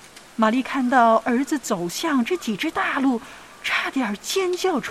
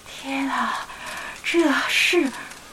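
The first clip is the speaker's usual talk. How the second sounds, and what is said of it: Quiet, hushed voice. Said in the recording (Chinese): “小声”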